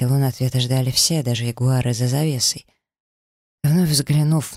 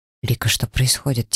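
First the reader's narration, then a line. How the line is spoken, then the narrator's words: Quiet question. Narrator (Russian): тихо поинтересовался Даррен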